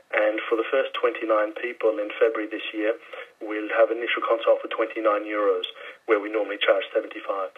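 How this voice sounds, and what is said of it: Mild Australian accent. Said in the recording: “listening to that accent, that's not a Ballincollig accent ... you get the odd twinge ... South African? ... No, Australian.”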